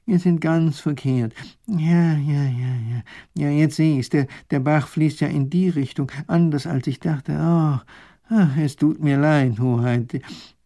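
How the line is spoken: Professor groaning. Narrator (German): stöhnt der Professor auf

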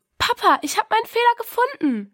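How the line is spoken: Calling out. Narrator (German): rief sie

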